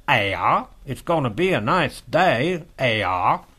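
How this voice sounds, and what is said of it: Imitated New England Yankee accent. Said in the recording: “She had a New England Yankee accent.”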